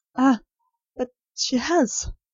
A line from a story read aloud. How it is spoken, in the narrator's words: said Nurse Rosemary, brokenly